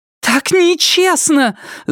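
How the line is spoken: Shouting. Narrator (Russian): закричала Полли в пустую комнату

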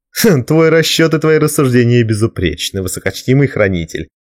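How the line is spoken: After laughing. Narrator (Russian): отсмеявшись, сказал Брикер своему коллеге

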